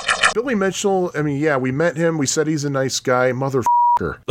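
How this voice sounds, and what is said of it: Usual voice. Nothing is said of it.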